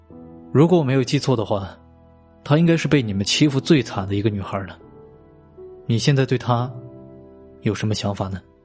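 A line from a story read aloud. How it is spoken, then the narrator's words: Mumbling, head lowered. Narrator (Chinese): 王妮低下了头，喃喃的说道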